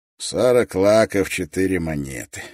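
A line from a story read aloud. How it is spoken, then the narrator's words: Gloomy. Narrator (Russian): говорил Роб, мрачно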